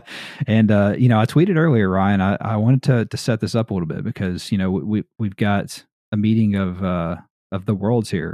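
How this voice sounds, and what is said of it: American Southern drawl. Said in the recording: “my Southern drawl here, American Southern drawl”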